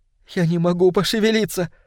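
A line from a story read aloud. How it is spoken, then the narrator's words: Sobbing, barely audible. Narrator (Russian): сказала она с рыданием, так что я лишь с трудом уловил слова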